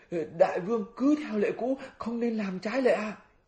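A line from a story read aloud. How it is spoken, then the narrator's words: Panicked cry. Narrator (Vietnamese): bát giới phát hoảng kêu lên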